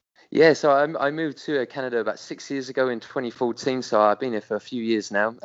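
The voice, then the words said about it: British accent. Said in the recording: “there's a British accent kind of banging around”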